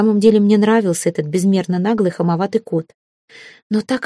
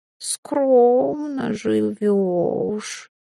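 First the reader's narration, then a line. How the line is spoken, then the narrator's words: Drawling with a snort. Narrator (Russian): протянул он, фыркнув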